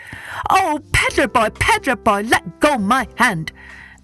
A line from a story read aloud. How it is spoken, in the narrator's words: the monkey called out